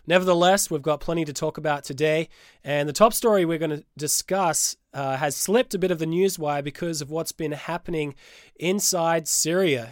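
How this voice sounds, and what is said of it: Stuffy, congested voice. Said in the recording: “apologize for my voice. I'm a little bit stuffy, a little bit under the weather.”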